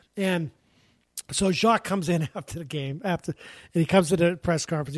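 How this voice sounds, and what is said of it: Usual voice. Nothing is said of it.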